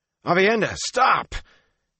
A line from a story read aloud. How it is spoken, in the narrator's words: his shout